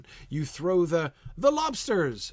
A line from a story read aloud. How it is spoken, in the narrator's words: shouted the Griffin